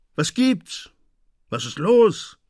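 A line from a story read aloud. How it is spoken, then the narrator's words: Angry call. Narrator (German): rief man ihm wütend zu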